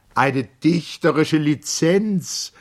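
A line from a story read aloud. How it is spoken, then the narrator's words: Calling out. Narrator (German): rief Mager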